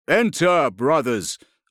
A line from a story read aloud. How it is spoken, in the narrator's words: a voice boomed out